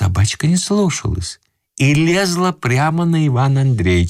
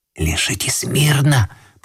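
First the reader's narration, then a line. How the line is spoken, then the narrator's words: Whisper, young man. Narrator (Russian): прошептал молодой человек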